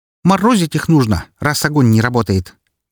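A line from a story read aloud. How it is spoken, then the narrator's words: Loud snort. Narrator (Russian): громко фыркнула Фокси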